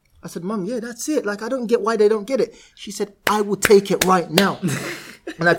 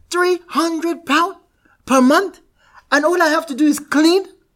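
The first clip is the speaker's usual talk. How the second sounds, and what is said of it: Put-on Nigerian accent. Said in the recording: “That's a better Nigerian accent.”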